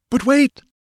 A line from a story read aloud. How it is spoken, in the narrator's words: exclaimed Tecotl